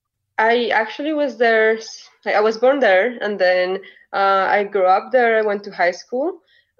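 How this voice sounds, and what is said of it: Colombian accent. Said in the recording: “this beautiful accent comes from ... originally from Colombia, from the capital, Bogota.”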